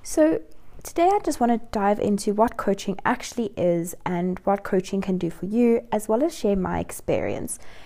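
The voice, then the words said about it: Voice sounds a bit off, sick. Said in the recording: “my voice sounds a little bit funny, I'm struggling with the flu”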